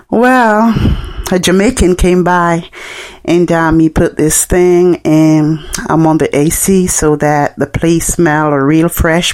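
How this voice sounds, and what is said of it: Jamaican accent. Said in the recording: “You have an accent. Are you from Jamaica?" And I said, "Yes, I'm from Jamaica."”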